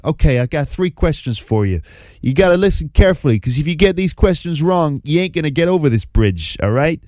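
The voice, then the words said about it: Good Italian-American Danny DeVito impression. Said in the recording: “That is quite a good Italian-American accent, even though that's not normally how you speak, Danny DeVito”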